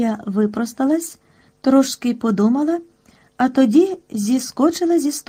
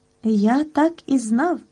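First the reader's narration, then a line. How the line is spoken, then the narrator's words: Happy tone. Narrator (Ukrainian): сказав він щасливим тоном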